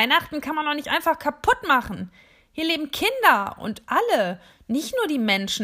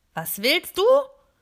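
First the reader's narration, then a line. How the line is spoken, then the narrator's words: Snapped rudely. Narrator (German): schnauzt mich diese Monika an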